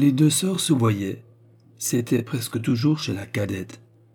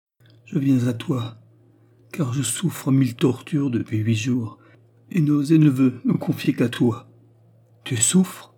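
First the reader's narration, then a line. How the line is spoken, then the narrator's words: Tender maternal exclamation. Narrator (French): s'écria Baccarat avec un subit élan de tendresse qui semblait revêtir une nuance maternelle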